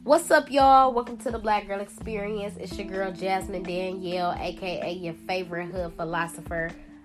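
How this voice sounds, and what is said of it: Congested, sick-sounding voice. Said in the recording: “I am a little under the weather right now, so please forgive me, forgive my voice. I know I sound congested”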